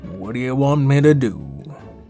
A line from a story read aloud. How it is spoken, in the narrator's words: Adel sighed